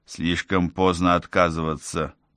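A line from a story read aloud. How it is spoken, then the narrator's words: Muttered. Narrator (Russian): пробормотал Реджи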